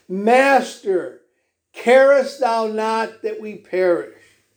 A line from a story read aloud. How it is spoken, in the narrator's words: In despair, they cried out